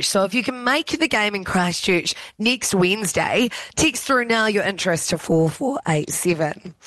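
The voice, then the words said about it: Hoarse, strained voice. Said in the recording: “I am losing my voice ... you and I were screaming our heads off ... also losing my voice”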